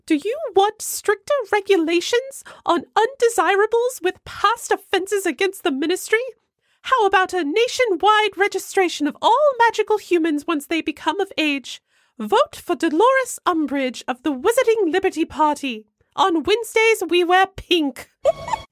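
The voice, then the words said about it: Dolores Umbridge character voice. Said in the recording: “Shall I do Umbridge? ... my best Eric impersonation ... Of Umbridge?”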